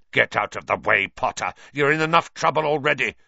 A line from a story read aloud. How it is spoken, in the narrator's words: snarled Snape